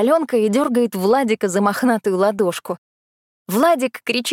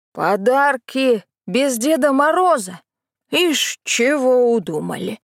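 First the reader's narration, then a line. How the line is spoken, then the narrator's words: Menacing lisp. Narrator (Russian): Дядя Лёня грозно шепелявит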